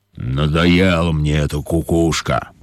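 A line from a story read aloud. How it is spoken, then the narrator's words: Lion grumbling. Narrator (Russian): проворчал лев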